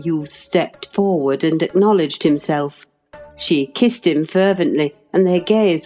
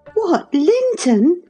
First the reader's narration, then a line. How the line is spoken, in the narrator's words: cried Cathy, kindling into joyful surprise at the name